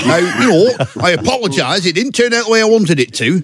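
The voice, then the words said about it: Lindsay Hoyle impression, Lancashire accent. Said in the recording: “Lindsay Hoyle... that's the Lancashire accent. It curls up at the end like that... he's from Chorley”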